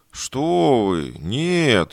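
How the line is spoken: Frightened drawl. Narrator (Russian): испуганно протянул негр, словно опасался, что нарушил табу

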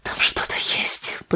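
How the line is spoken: Whispered. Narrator (Russian): прошептала она

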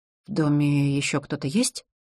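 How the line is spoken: Whispered clarifying question. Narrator (Russian): Перейдя на шепот, уточнила

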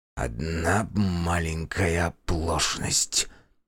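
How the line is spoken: Muttered. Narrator (Russian): пробормотал Аркадий

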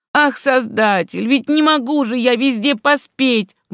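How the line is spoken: Impatient exclamation. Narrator (Russian): воскликнул тот с жестом нетерпения

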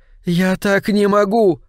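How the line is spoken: Moaning. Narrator (Russian): она простонала

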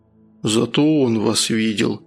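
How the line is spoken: Dull, lifeless voice. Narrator (Russian): потухшим голосом проговорил Прохор

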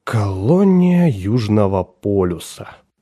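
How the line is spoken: Muttering. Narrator (Russian): пробормотал Уингит

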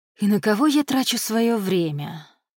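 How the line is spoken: Sad question to himself. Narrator (Russian): обращаясь к самому себе, печально поинтересовался Джай

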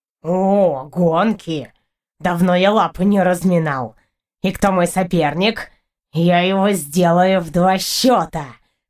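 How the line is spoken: Boastful meow. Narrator (Russian): Хвастливо мявкнул Партур

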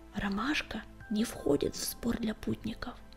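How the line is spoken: Barely audible whisper. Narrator (Russian): еле слышно прошептал он

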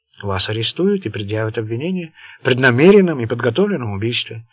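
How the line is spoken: Calm reply. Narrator (Russian): спокойно ответил Уолтерби

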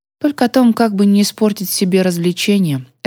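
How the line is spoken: Risky retort. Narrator (Russian): рисковато парировала я

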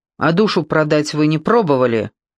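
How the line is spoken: Angry. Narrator (Russian): зло сказал Сол

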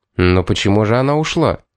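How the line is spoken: Quiet repetition. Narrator (Russian): тихо повторил Томас

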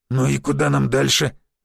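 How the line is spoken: Nervous breathless growl. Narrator (Russian): нервно прорычал Дроба, справляясь с одышкой

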